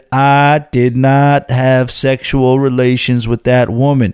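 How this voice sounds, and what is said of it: Weak Bill Clinton impression. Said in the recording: “that Clinton impression? Probably not too good”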